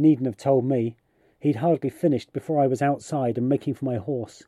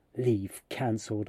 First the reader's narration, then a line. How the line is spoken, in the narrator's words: I hissed through the triangular gap in my front tooth as I galloped along the road